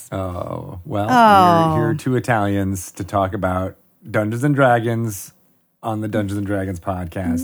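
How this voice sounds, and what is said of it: Exaggerated Italian accent, Count-like. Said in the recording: “You just have to do that accent that actually sounds like the Count from Sesame Street ... not in such a heightened way”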